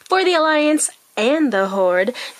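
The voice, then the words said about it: Voice shifts to evil tinge. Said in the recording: “did you notice how her voice changed? ... a little evil tinge”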